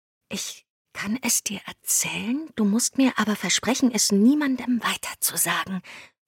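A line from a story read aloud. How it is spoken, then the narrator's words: Whispered. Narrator (German): flüsterte sie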